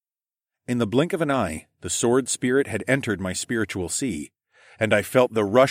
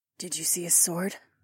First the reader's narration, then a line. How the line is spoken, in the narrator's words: Lyca asked under her breath